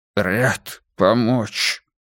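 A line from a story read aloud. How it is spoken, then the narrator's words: Hoarse wheeze. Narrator (Russian): прохрипел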